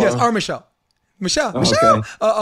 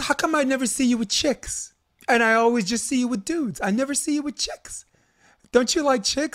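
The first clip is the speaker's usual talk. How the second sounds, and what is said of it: Put-on New Jersey accent. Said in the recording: “talking like her little Jersey accent”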